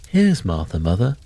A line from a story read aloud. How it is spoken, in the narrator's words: cried the two young Cratchits